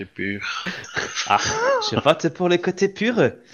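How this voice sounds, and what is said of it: Put-on German accent, poorly done. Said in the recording (French): “accent allemand quand tu dis ça ... Il fait mal ton accent allemand un peu quand même”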